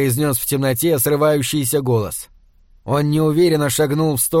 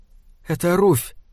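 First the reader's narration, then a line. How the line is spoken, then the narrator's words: Frightened whisper. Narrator (Russian): сказала она перепуганным шепотом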